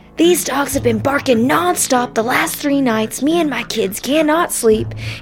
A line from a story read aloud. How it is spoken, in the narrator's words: This guy's screaming at him, saying